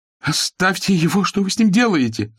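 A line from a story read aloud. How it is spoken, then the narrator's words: Shouting from the doorway. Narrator (Russian): закричала от двери, что вела из внутренних покоев Ефросинья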